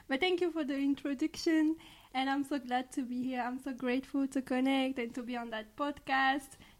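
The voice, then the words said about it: French accent. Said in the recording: “I'm from France, so this is for my accent.”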